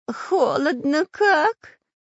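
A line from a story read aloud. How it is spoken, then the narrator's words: Whining. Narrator (Russian): заскулил шпион Дырка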